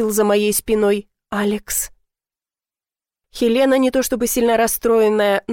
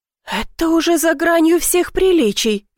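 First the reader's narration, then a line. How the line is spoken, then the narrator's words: Shrieked. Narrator (Russian): взвизгнула Эзерхольд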